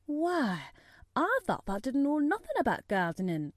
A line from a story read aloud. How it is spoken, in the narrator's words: he exclaimed